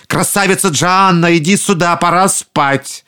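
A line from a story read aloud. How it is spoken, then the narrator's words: Alarmed shout. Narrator (Russian): Услышав странный шум, людоеды почувствовали неладное и крикнули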